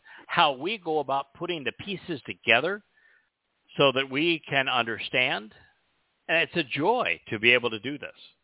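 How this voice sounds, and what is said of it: Strained voice giving out. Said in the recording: “my voice is beginning to give out”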